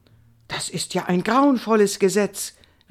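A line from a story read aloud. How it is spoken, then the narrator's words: Excited exclamation. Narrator (German): rief Indiana aufgeregt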